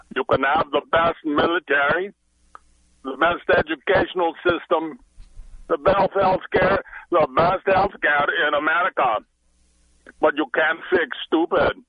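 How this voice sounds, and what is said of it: Arnold Schwarzenegger impression, Austrian accent. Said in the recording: “Arnold, but you speak with an accent ... It's Spanish or Italian or... ... No, it's Austrian or something, isn't it?”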